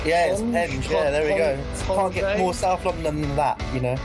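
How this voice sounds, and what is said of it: South London accent. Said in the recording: “perhaps the most South London sounding of all Crystal Palace fans ... Milk the South London accent there.”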